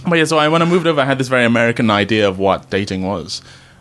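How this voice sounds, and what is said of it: Transatlantic Malaysian-English accent. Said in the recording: “a lot of English people think I'm American ... your accent. I love your accent.”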